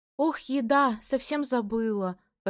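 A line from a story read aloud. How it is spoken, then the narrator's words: Exclamation. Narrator (Russian): воскликнула Велена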